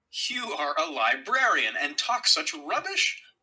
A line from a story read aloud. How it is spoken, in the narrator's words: I cried